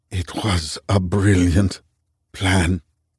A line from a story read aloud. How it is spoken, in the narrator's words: Ali whispered